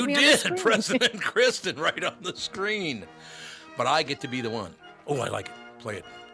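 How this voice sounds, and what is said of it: Usual voice. Nothing is said of it.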